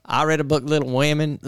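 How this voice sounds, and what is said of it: Shaky Katt Williams impression. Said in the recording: “I don't know if that's a good Cat Williams ... It's a little gayer than that ... No, that's not the right accent”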